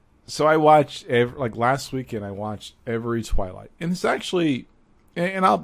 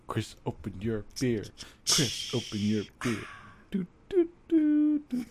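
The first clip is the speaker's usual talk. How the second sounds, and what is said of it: Imitates another person's voice. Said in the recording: “are you doing your best Chris impression?”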